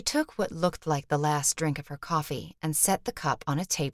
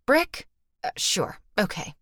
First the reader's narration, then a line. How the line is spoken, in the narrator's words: she said, her tone all business